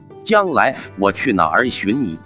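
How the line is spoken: Plain. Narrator (Chinese): 女子道

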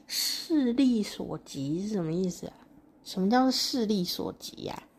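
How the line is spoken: Muttering to himself. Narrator (Chinese): 彼得罗呢，喃喃自语的说

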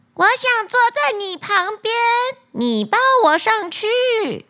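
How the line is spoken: Shouting loudly. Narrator (Chinese): 他大声喊道

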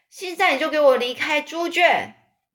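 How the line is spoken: Woman calling out. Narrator (Chinese): 艾瑞博太太就那边叫

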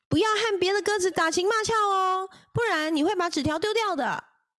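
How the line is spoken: Shouting from behind. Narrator (Chinese): 武士在后面大喊

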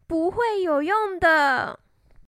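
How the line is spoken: Sighing. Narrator (Chinese): 一只蓝鸟叹了一口气说

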